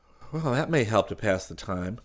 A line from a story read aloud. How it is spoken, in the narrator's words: Chris murmured